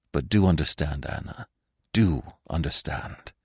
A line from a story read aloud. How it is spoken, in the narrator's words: he said hastily in a low voice